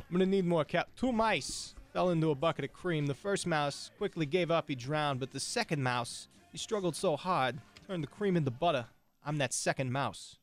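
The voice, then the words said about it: Christopher Walken impression. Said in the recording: “you did a good impression of him ... Walken impressions ... why don't you just continue talking like him”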